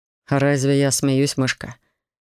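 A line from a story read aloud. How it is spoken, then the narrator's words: Amused snort. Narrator (Russian): хмыкнул Корф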